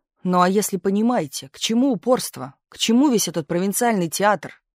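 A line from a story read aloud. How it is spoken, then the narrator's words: Shouting. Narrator (Russian): закричал Берг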